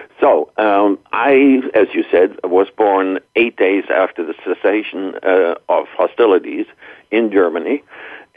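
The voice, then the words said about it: German-accented English. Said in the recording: “He had a German accent”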